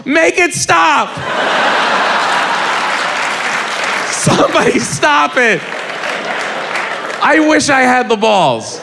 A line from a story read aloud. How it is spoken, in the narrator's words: you just heard this little boy yell